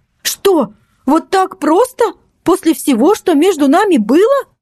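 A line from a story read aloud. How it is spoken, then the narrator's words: Exclaiming. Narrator (Russian): воскликнула Настя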